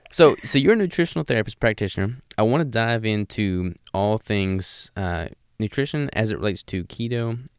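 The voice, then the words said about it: Deep Southern American accent. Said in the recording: “You have quite a deep American accent compared to a lot of people ... Good old Southern accent.”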